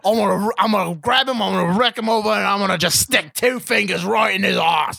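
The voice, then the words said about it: Bad put-on Australian accent. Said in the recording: “These are the worst accents ever.”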